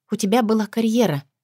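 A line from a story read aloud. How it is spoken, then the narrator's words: Quiet reply. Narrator (Russian): тихо отзываюсь я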